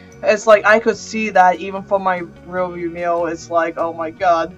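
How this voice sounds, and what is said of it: Speech impediment that sounds like an accent. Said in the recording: “I have the speech impediment... I just say accent”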